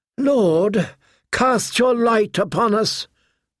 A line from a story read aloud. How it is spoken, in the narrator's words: Melisandre called out